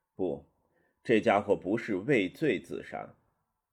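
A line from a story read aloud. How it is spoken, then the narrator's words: Sighing. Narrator (Chinese): 曹锟叹一口气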